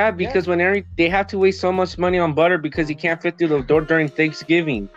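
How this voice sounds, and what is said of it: Usual voice. Nothing is said of it.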